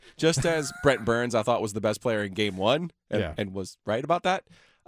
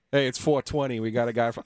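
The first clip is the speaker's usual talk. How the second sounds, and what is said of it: Put-on New York accent. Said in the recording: “I'm giving him a New York accent ... a New Yorker opening up a pizzeria”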